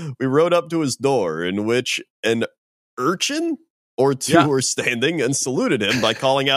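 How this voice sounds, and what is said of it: Usual voice. Nothing is said of it.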